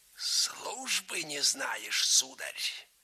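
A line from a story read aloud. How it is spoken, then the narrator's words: Hoarse. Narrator (Russian): сипло сказал Павел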